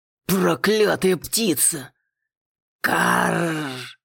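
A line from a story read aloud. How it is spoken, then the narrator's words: Ominous bird's cawing. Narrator (Russian): Зловеще предрекла повторила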